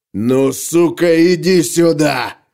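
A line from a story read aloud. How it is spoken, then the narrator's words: Roared. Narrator (Russian): проревел он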